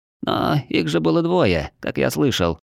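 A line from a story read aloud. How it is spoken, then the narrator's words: Timid. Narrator (Russian): робко подал голос Лапа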